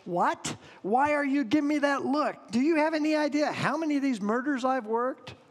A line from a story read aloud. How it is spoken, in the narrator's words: After a long pause, he barked